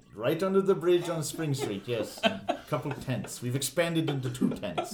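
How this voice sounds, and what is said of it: Put-on Indian accent. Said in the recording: “He's now an Indian man ... I can't do this accent”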